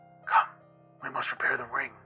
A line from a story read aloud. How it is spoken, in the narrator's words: he whispered